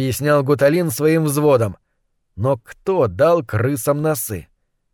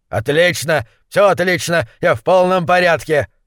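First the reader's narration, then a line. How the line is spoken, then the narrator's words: Barking. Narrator (Russian): рявкнул гуляш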